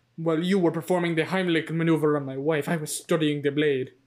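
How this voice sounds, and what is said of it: Bad imitation of a character's voice. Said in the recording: “bad Fernando impression ... That was really bad ... horrible impression”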